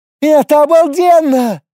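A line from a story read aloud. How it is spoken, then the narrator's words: Shouting over wind. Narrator (Russian): Перекрывая шум ветра, закричала она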